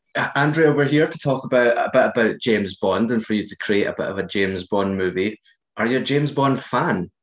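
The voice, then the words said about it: Husky Scottish accent. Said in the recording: “two random Scottish guys ... I'm here for the accents ... these accents ... we're sounding extra husky this evening”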